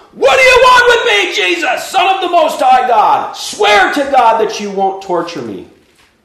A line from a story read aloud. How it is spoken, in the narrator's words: he shouted at the top of his voice